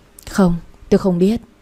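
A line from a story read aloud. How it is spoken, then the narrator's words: Sighing reply. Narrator (Vietnamese): tôi thở dài đáp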